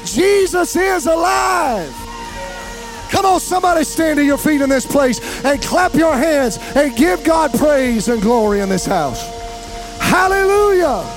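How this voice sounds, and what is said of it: Excited shouting. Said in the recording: “I'm yelling because I'm excited.”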